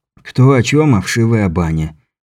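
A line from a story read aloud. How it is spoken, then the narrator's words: Resigned sigh. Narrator (Russian): Беляев вновь обречённо вздохнул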